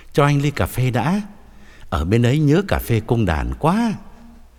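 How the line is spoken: Smiling. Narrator (Vietnamese): ông mỉm cười bảo

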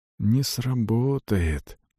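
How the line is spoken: Whisper. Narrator (Russian): прошептал

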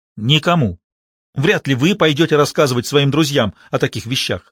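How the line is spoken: Sharp. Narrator (Russian): резко сказал Реджи

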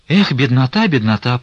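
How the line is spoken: Bitter sigh. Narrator (Russian): прибавила она, горько вздохнув

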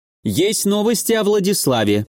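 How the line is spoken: Exclaimed. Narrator (Russian): воскликнул Эваком

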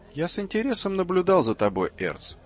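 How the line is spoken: Plain. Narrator (Russian): сказал Нарби

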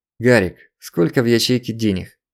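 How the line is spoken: Even-voiced question. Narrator (Russian): Ровным голосом поинтересовался Злобин

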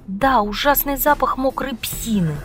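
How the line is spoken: Irritated. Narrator (Russian): сказала она раздраженно

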